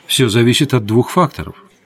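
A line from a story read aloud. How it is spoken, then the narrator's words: Calm reply. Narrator (Russian): спокойно ответил Родис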